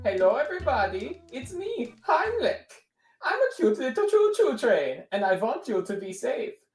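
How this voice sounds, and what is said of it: Heimlich character voice with accent. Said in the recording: “that's his accent ... Accents have been done on this thing ... they literally put V's in the script”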